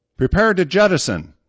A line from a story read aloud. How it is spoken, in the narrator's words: the captain yelled